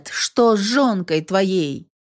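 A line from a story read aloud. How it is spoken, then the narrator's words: Shouted after someone. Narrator (Russian): Крикнула во след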